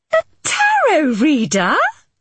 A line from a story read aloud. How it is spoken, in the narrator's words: Mitzi exclaimed